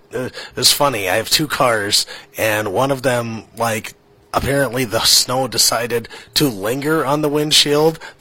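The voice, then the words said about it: Voice strained from a cold. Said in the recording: “He's battling a cold ... As you can probably tell from my voice, it's not at 100%”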